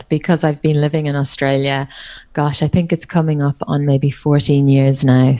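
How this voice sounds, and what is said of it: Irish accent with sing-song Australian tinge. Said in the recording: “I'm Irish, but my accent is hard to pick up ... you can hear the Irish accent, I think, every so often, but it has a little bit of the sing-along Australian accent in there as well, where I sing on the notes”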